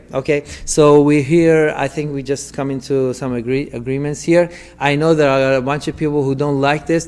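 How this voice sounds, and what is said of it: Non-native English accent. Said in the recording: “There are a bunch of people who don't like my English. I know my English is weak. My accent is funny ... English, which is my second language”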